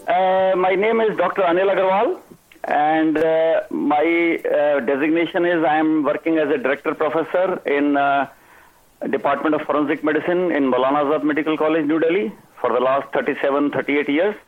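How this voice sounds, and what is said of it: Thick Indian English accent. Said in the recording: “He's got a kind of a thick accent”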